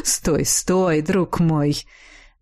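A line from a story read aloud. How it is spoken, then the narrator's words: Soft laughter. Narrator (Russian): Мягко рассмеялся ректор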